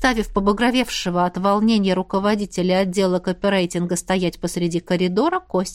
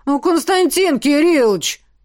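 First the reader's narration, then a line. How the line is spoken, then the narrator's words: Wailing. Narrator (Russian): взвыл Куропатов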